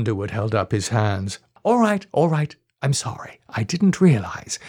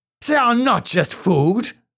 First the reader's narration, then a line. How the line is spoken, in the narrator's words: shouted Rose